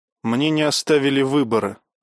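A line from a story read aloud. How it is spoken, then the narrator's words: Plain. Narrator (Russian): сказал Марк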